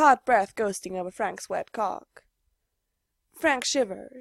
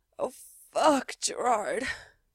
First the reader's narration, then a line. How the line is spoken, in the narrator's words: he moans, his voice loud and reaching over the steady hum of the heater